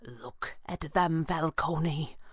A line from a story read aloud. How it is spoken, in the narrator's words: Pavli said, his voice barely a whisper